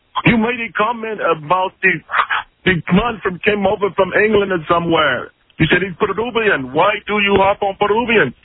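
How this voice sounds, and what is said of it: Phony, badly done put-on accent. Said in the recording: “That's a phony accent ... You're doing a phony accent ... Badly ... Terrible accent”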